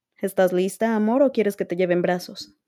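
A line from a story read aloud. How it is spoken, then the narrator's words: Plain question. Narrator (Spanish): le preguntó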